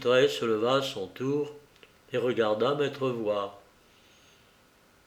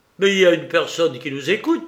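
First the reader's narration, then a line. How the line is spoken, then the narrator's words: Exclaiming. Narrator (French): s'écria-t-il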